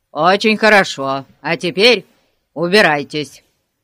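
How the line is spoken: Through gritted teeth. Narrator (Russian): процедил полицейский

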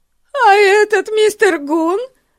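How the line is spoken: Screaming again. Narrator (Russian): снова завопила миссис Мун

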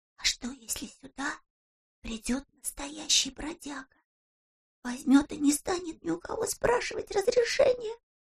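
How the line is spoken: Whispered. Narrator (Russian): прошептала Бритта

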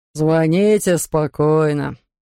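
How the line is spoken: Deep bass voice. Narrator (Russian): пробасил он

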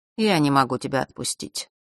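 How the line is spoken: Bored voice. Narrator (Russian): скучающим голосом произнес Нортон-старший

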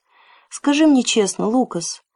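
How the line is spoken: Quiet request. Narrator (Russian): тихо попросил Джим

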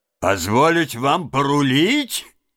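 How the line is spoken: Laughing loudly. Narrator (Russian): захохотала хозяйка баржи

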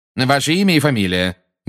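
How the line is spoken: Loud demand. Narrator (Russian): громко потребовал Фадж

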